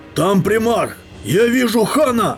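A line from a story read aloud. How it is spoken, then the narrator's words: Shouting. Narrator (Russian): закричал кто-то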